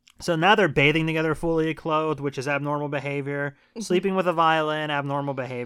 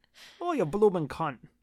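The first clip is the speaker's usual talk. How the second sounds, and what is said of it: Weak put-on Australian accent. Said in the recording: “I can't do an Australian accent.”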